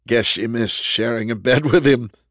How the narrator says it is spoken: he chuckled

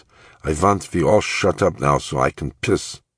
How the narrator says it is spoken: in that Sig Ruman accent of his

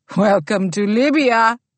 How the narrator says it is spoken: he said, laughing, as if he was amused to grant her this small favor

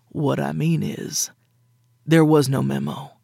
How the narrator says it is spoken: he said gruffly, looking harassed

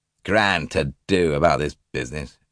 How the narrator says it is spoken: he sneered

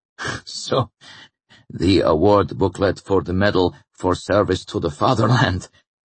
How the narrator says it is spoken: Ullman laughed it off

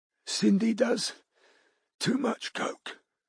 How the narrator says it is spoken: Betty wheezed, her eyes watering when she could talk again

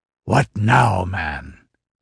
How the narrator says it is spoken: exclaimed Demetrio irritably

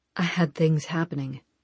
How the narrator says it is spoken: he said quietly

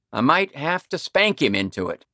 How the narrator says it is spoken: he said a little too loudly and sharply

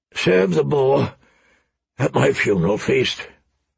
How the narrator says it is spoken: Robert rasped

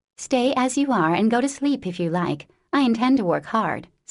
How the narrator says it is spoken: said Amy, in her most energetic tone

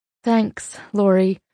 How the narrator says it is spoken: I breathed into the phone

